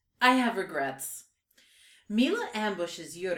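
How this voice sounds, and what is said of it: Usual voice. Nothing is said of it.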